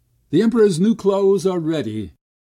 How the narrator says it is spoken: cried

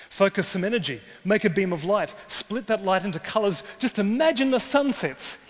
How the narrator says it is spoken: he exclaims

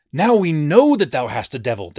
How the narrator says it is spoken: they cried

